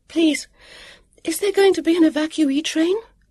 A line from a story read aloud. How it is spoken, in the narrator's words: Vivian asked breathlessly